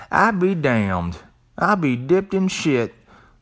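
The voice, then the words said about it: Country twang. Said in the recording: “Let me say that with a country twang.”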